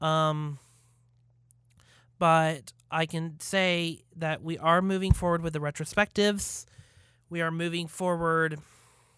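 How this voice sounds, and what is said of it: Hoarse, worn-out voice. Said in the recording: “I'm losing my voice because I've been doing podcasts all day.”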